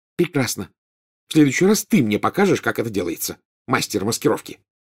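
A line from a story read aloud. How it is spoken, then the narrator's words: Snapped. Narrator (Russian): огрызнулась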